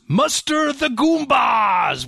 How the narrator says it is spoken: Koopa yells

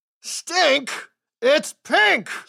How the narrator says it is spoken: roared

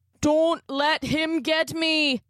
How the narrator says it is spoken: Connor cried, slowly being pulled back into the bathroom

